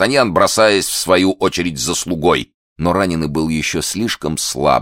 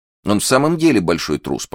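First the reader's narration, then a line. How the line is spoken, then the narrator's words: Grumbling, ingratiating. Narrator (Russian): проворчал хозяин, стараясь подкупить лестью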